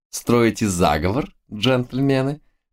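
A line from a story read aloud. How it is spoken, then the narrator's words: Ringing girlish laughter. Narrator (Russian): Заливисто рассмеялась девица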